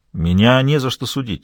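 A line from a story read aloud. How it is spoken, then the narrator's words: Calm. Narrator (Russian): спокойно уточнил Гасель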